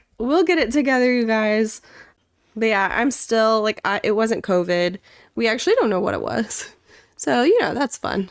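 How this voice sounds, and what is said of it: Sick-sounding voice. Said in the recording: “You can probably tell from my voice, I'm feeling a little sick”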